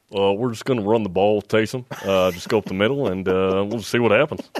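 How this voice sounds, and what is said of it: Imitates another person's voice. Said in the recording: “his impersonation. It's actually pretty good.”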